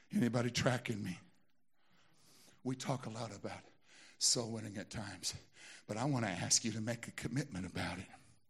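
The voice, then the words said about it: Southern American accent. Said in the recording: “my southern accent ... there's obvious going to be southern in my speech”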